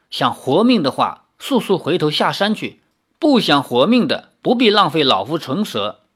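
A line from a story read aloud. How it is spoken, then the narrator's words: Cold old man. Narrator (Chinese): 那遇见老者只是冷冷地说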